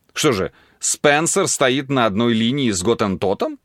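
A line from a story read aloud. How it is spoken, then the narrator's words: Laughing. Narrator (Russian): засмеялся Дархиал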